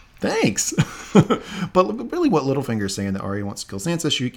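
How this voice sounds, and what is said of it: Usual voice. Nothing is said of it.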